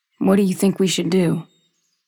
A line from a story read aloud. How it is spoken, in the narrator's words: he asks